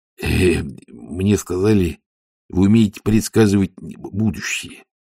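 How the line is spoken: Mumbling. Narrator (Russian): промямлил он

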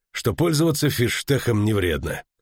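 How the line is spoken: Heavy sigh. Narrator (Russian): тяжело вздохнул он

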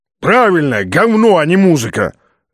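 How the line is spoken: Bark over phone. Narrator (Russian): рявкнул в трубке чей-то голос

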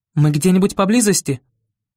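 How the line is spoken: Shouting, mother. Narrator (Russian): крикнула мама

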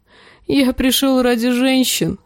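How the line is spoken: Sobbing. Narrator (Russian): рыдал он

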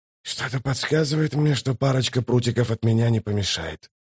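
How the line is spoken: Grim mutter. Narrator (Russian): пробормотал он, вспоминая смерть Трейка

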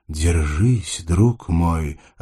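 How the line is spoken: Menacing growl. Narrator (Russian): Альберт грозно прорычал

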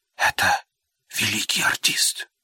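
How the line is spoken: Whisper. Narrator (Russian): она прошептала

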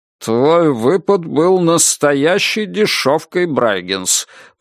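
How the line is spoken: Through gritted teeth. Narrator (Russian): процедил прокурор

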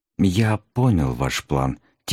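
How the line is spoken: Quiet. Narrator (Russian): тихо ответил сэр Гамильтон

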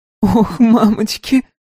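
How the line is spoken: Muffled, ringing giggle. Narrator (Russian): сказала Кони, прикрывая лапы и рот и звонко хихикая

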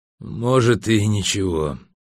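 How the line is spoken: Drunken sigh. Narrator (Russian): пьяно вздохнул Эльгара

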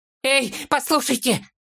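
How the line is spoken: Yelling. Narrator (Russian): завопил Фолка

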